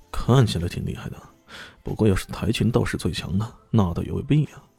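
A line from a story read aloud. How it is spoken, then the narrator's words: Muttering. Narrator (Chinese): 男子嘟囔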